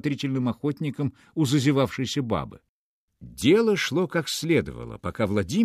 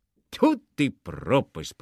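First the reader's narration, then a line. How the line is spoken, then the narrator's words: Mumble. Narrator (Russian): пробормотал он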